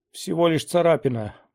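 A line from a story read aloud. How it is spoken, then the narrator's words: Groan. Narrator (Russian): простонал он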